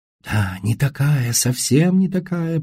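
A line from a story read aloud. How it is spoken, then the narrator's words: Whisper. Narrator (Russian): прошептала Сесси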